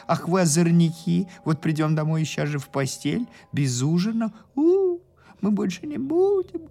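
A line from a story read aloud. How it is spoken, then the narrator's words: Whimpering. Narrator (Russian): хныкали родители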